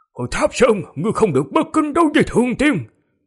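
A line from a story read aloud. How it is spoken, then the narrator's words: Old man shouting. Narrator (Vietnamese): Lão nhân bên người Vương Lâm quát lên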